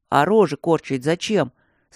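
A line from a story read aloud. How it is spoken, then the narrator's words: Plain. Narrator (Russian): спросил Леха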